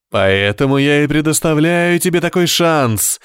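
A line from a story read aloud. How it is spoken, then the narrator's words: Devil exclaiming. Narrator (Russian): воскликнул дьявол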